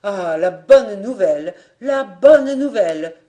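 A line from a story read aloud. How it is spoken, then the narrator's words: Exclaimed. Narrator (French): s'exclama-t-il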